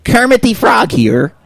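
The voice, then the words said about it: Kermit the Frog character voice. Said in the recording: “do a Kermit voice”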